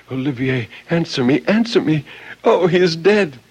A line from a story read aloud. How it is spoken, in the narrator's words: cried out repeatedly